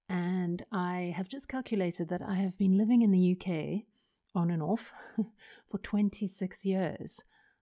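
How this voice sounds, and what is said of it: South African accent, some Australian influence. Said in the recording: “I am South African, although my mum is Australian, in case you're wondering about the accent.”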